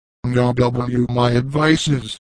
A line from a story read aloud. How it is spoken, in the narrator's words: began